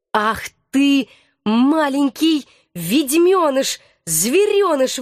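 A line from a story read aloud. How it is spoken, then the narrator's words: Forced out, gasping. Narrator (Russian): выдавила я, задыхаясь и падая на колени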